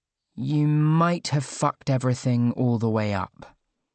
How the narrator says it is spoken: she said slowly

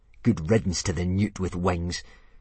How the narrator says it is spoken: he was whispering slyly to Dogsbreath the Durbrain

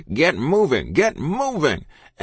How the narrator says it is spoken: Captain Ivers was hollering through the wind

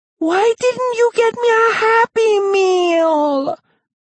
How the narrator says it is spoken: Veronica demanded in her loud, whiny voice

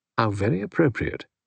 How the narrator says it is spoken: said Tuppence softly

